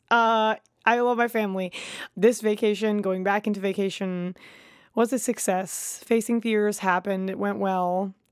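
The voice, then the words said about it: Tired, low-energy voice. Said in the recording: “I'm a little tired. I don't know if you can hear it in my voice. ... I'm a little low energy.”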